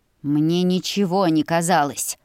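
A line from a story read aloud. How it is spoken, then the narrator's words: Hissing. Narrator (Russian): Он буквально шипел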